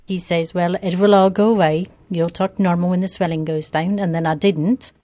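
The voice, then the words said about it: Foreign-sounding British Isles accent. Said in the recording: “sounds like some sort of hybrid of English accent, some Irish or Gaelic intonations, and even some Scottish flavor. ... foreign accent syndrome ... an altered speech pattern that sounds like a foreign accent”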